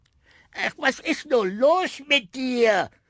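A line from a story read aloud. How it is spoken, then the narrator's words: Shouting at dog. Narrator (German): schrie die Signora ihren Hund an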